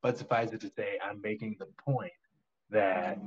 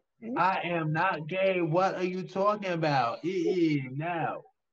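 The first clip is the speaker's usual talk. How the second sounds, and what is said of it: Poor effeminate impression of another person. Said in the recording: “the most feminine everything ... my accent is awful. I'm doing an awful job impersonating him.”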